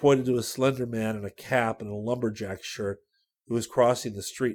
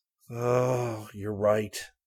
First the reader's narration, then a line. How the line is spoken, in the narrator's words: Rick agreed gloomily